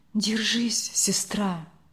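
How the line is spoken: Whisper. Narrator (Russian): шепот дяди Яши

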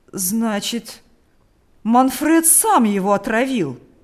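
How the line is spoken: Excited trembling old man's exclamation. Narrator (Russian): воскликнул старик, дрожа от волнения

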